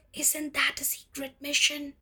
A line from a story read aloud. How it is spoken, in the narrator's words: Casey is so sweet and innocent that he whispers